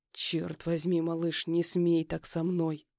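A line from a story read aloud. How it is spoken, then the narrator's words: Through gritted teeth. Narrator (Russian): Выдохнул сквозь зубы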